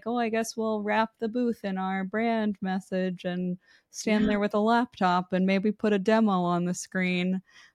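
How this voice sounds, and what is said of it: Eeyore cartoon donkey voice. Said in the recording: “you do a great Eeyore voice, by the way. I love your Eeyore voice. ... That was the best I've ever heard.”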